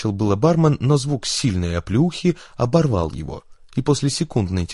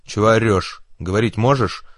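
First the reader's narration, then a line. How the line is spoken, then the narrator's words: Stern question. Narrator (Russian): строго спросили девушку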